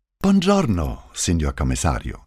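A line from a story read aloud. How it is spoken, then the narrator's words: Cheerful speech. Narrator (German): sagte Puccetti fröhlich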